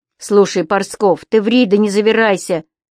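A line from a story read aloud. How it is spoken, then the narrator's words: Stern interruption. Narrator (Russian): строго прервал Костыль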